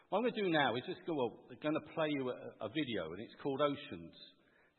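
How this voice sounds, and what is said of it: English accent, somewhat London. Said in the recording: “from a West Country accent to a bit more of a London one”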